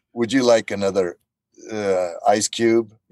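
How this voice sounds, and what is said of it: Deliberately bad, wooden acting voice. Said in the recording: “Just do Agent 47. Kind of acting a bit badly”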